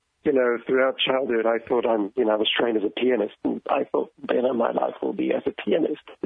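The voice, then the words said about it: Slight foreign accent. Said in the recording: “Our listeners will notice a little bit of an accent right away.”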